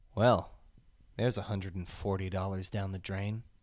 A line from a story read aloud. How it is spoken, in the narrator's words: very quietly